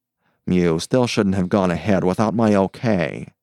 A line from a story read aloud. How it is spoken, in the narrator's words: he grumbled